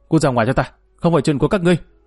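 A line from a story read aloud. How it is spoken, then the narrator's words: Embarrassed angry shout. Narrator (Vietnamese): Chính Đức thẹn qua hóa giận liền quát lên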